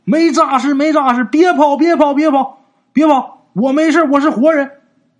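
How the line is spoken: Loud shout. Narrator (Chinese): 张木匠 大喊呐

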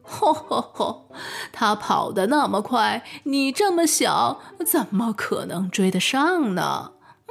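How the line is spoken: Laughing heartily. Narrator (Chinese): 蜈蚣哈哈大笑

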